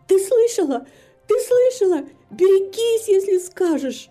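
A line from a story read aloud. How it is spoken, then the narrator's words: Trembling cry. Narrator (Russian): Дрожь пробежала по ее телу, придя в себя, вскрикнула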